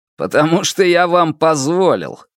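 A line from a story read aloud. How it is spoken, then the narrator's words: Snorting. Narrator (Russian): хмыкнул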